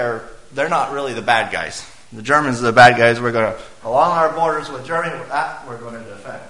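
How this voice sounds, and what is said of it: Usual voice. Nothing is said of it.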